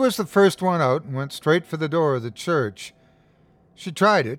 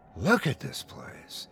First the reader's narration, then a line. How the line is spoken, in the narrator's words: Ida murmured